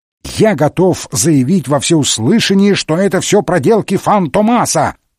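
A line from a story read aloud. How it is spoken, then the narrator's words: Furious shout. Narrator (Russian): выкрикнул инспектор Жюф, в ярости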